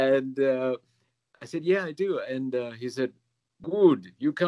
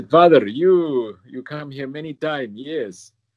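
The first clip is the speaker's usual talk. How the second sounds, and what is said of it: Imitated foreign accent. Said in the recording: “I shouldn't do the accent.”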